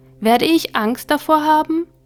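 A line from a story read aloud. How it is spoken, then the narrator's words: Small soul calling out. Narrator (German): rief die kleine Seele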